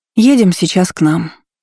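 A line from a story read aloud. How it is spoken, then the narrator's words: Sighing. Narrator (Russian): Вздохнула она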